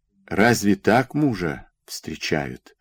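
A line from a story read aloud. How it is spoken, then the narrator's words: Suddenly quiet. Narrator (Russian): вдруг тихо заговорил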